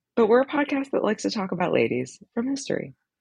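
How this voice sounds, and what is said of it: Sick-sounding voice. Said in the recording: “I'm sick, which is why I sound weird.”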